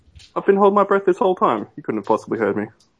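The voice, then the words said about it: Australian accent. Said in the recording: “If you can't tell by the accent, you're silly ... from Down Under”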